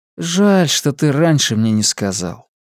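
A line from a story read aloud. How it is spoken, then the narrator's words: Sad voice. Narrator (Russian): печально проговорил Костик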